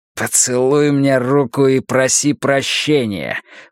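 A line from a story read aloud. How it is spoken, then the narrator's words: Hiss. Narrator (Russian): прошипел Риттер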